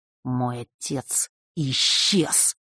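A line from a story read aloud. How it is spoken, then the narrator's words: Angry, through gritted teeth. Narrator (Russian): процедил, сверкая глазами от гнева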